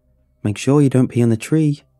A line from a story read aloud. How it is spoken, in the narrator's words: said